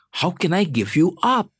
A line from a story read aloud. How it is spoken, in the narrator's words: God exclaims